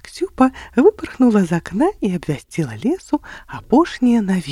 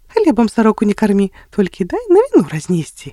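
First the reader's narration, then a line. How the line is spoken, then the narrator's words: Smiling. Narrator (Belarusian): усміхнулася Ліма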